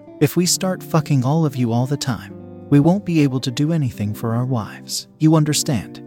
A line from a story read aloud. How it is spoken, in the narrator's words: His voice was calm and soothing